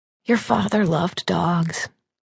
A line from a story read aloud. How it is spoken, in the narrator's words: she whispered